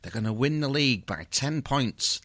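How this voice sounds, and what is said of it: Imitates another person's voice. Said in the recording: “That's my Berkey impression, everyone.”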